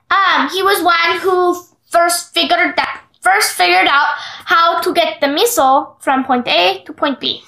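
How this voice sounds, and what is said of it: Put-on foreign accent. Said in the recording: “And suddenly you have an accent.”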